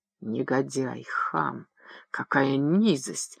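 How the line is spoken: Whisper. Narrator (Russian): шептала Эмма, идя нервной походкой

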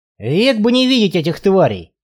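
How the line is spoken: Grumbled. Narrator (Russian): пробурчал Барри

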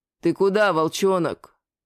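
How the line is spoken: Gloomy question. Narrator (Russian): Мрачно спросил меня Левассер

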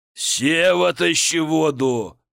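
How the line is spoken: Roaring big fellow. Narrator (Russian): взревел детина

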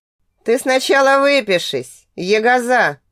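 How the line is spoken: Laughing teacher. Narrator (Russian): рассмеялся препод

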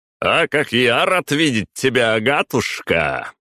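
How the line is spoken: Loud. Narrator (Russian): громко произнес этот Матвей

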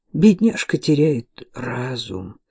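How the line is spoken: Sad voice. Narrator (Russian): печально проговорил

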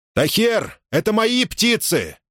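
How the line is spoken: Shouted. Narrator (Russian): крикнул Мусса

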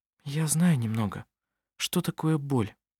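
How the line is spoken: Quiet. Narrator (Russian): тихо сказала Анна-Мария

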